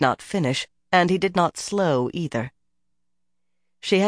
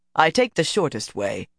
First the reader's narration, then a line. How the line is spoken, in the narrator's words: he replied curtly